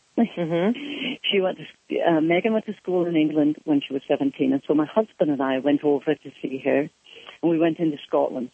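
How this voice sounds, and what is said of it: Scottish-sounding accent. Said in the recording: “Here I am in Scotland with this accent”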